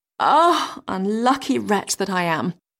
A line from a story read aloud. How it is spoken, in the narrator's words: sighed she